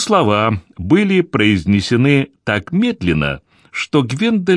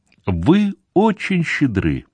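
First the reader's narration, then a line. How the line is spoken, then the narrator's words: Tender. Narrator (Russian): произнесла она нежно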